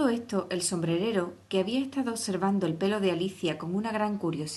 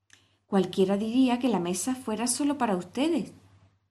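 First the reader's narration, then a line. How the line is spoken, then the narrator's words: Exclaimed. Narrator (Spanish): exclamó Alicia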